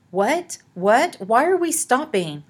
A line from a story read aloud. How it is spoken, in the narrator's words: Olive made her voice as steady as she could